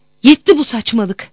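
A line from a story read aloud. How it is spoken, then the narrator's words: Shouting. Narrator (Turkish): diye bağırdım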